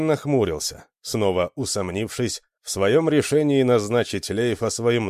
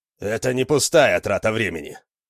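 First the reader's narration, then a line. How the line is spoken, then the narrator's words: Irritated snapping. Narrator (Russian): огрызнулся Лейф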